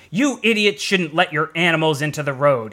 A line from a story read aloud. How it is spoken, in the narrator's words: he said angrily